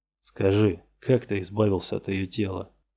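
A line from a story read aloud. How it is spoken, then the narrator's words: Tired detective. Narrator (Russian): устало сказал детектив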